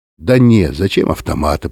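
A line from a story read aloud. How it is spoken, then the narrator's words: Grumbled. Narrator (Russian): проворчал водитель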